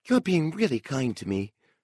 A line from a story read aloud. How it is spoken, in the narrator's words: Miss Smith breathed